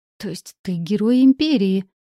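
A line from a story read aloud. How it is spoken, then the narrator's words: Admiring exclamation. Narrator (Russian): воскликнула я восхищенно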